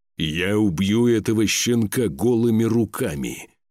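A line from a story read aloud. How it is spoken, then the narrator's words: Disgusted growl. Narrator (Russian): прорычал, кривясь от отвращения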